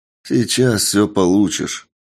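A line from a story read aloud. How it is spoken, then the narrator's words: Tired reply. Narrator (Russian): устало отвечаю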